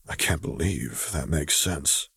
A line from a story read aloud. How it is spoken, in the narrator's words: he mumbled